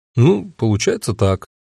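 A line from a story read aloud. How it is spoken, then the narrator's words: Uncertain. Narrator (Russian): неуверенно ответил я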